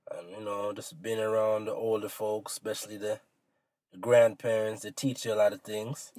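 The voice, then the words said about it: Jamaican accent. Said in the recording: “your accent, you sound like you're from Jamaica. Like, you grew up, born, bred, raised in Jamaica.”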